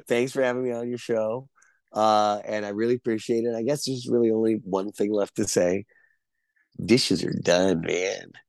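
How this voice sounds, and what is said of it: Hoarse, worn-out voice. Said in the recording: “My voice is shot.”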